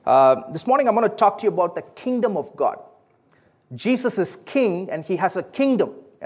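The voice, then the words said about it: South Indian English accent. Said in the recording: “my accent is a little different, right? Believe it or not, it is actually a southern accent. It is from the southern part of India.”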